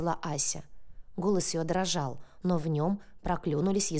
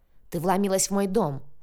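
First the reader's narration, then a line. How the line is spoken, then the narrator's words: Barked. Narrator (Russian): рявкнул Ионов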